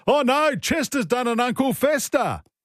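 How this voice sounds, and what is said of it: Imitates another person's voice. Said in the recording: “That was my impersonation of Brad Fittler ... he's done it in commentary as well”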